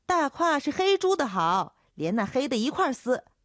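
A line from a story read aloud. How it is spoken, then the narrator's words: Young girl shouting back. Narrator (Chinese): 叫豆蔻的年少姚姐喊回去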